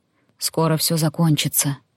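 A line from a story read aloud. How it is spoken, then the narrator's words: Whisper. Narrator (Russian): шепнул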